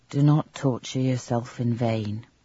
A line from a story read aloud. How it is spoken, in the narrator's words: he said in a soothing tone